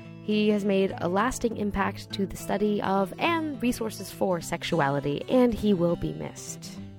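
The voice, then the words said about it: Congested, stuffy voice. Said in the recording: “how congested and fuzzy-headed I sound”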